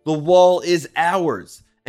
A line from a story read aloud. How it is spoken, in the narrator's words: a few hundred Jews shouting